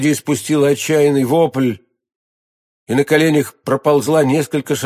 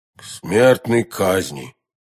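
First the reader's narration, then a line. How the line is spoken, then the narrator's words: Two men, hollow muffled voices. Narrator (Russian): глухим голосом ответили оба мушкетера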